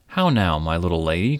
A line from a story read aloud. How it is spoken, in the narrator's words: cried Midas